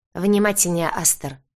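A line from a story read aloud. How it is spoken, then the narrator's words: Barking. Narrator (Russian): рявкнул Ансельм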